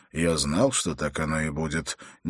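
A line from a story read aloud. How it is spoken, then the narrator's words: Quiet reply. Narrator (Russian): негромко ответил Холт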